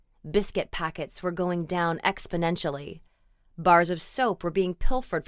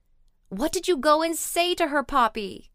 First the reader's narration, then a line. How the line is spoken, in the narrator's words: Cassandra wailed, almost accusingly